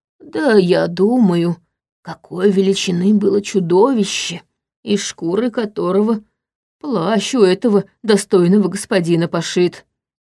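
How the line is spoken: Whispered. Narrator (Russian): прошептал

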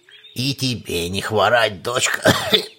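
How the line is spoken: Creaky old voice. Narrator (Russian): Проскрипел в ответ старик

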